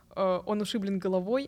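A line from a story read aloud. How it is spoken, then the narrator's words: Plain. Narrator (Russian): сказал испанец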